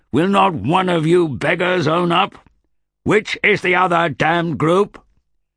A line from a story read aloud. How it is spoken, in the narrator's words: bellowed the old man